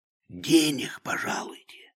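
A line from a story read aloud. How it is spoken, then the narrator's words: Whispered. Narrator (Russian): шептал Захар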